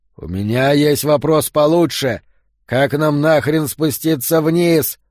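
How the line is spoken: Growling. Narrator (Russian): прорычал он

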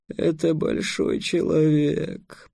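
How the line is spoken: Moan. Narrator (Russian): простонал Васап

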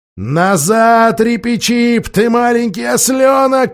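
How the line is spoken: Shouting. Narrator (Russian): кричал Питер

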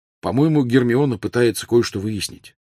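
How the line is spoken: Plain. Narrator (Russian): сказал Рон

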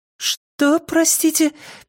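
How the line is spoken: Squeaky woman's voice. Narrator (Russian): пискнула женщина

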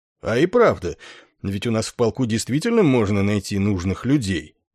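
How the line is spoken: Exclaimed. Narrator (Russian): воскликнул полковник Кошкарт

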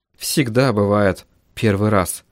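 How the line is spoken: Muttered. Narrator (Russian): пробормотала Мэрилис

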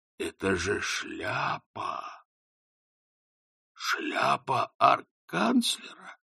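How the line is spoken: Hoarse. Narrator (Russian): хрипло выговорил Ринсвинд

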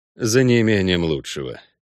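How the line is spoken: Sighing. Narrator (Russian): вздохнул Геральт

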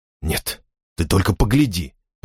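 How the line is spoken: Whisper. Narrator (Russian): прошептал Сожирук

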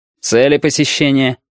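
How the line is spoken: Unpleasant voice. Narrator (Russian): спросил Рамон неприятным голосом

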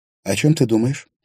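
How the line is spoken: Plain question. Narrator (Russian): спросила она

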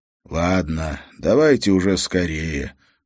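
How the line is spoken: Sighing. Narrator (Russian): вздохнул Турт

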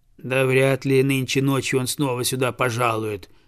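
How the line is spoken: Grumbling. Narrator (Russian): проворчал он

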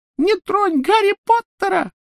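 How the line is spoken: Squeaky voice. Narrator (Russian): пропищал он

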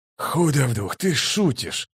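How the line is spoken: Muttering. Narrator (Russian): пробормотал Ток

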